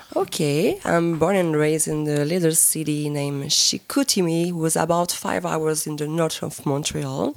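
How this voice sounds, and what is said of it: Slight French-Canadian accent. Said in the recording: “you have a little bit of an accent ... Just a tiny bit ... I'm French-Canadian”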